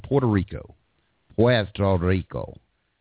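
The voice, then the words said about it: Attempted Spanish accent. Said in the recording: “a hillbilly trying to pull off Spanish accent”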